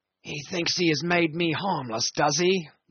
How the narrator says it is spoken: mumbled Brown very low

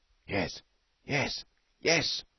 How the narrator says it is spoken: ran the keen whispers

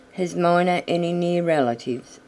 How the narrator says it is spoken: asked Peter Rabbit

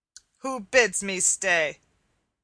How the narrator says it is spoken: said the miller, in a voice deep and gruff, like the growl of a great dog

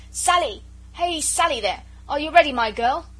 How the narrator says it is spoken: said Jellyband, and shouted lustily

